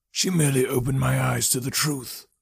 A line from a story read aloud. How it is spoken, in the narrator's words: the man said sadly